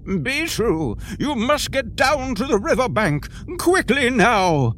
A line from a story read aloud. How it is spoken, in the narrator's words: screamed Brick